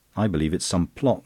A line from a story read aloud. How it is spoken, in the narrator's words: snapped Verloyne